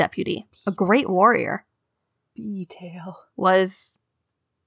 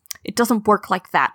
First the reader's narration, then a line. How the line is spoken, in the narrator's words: she spat